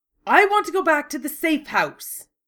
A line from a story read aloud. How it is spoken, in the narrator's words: snapped